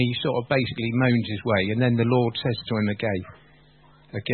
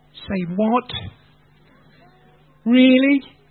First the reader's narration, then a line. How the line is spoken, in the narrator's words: And then he has a quick moan